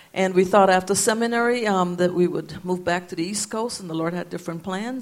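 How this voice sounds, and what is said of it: Guyanese accent. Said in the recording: “if you're wondering where the accent is from ... Guyana, South America.”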